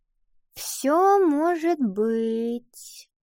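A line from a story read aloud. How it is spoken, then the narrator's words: Vague drawl. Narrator (Russian): неопределенно протянула Ива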